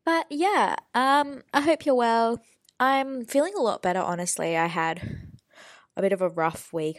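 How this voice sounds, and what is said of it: Slightly nasal, congested voice. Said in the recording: “Sorry if I sound a little nasally. I'm still kind of kicking a head cold”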